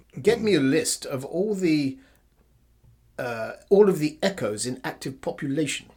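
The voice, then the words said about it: Imitated refined English accent. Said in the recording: “He goes with his refined English accent”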